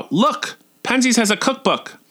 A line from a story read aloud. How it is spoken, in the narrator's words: I cried out